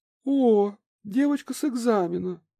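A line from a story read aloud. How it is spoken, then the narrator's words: Surprised squeak, muffled by fan. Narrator (Russian): Раскрыв рот от удивления, а после прикрыв того веером, пискнула невеста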